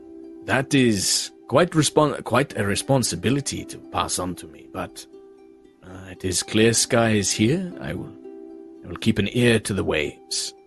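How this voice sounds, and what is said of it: Vaguely Caribbean pirate accent. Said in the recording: “Remember his accent? ... It was vaguely Caribbean / Pirates of the Caribbean.”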